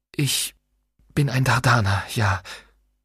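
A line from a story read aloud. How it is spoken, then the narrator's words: Whisper. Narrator (German): flüsterte er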